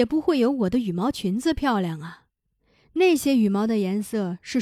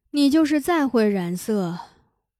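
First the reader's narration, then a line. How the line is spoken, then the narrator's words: Calm sighing speech. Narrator (Chinese): 达玛拉也不恼 叹息着对娜拉说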